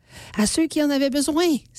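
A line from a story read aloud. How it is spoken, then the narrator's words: Exclaimed. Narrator (French): s'exclame Angélique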